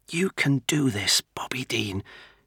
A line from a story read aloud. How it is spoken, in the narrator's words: muttered to himself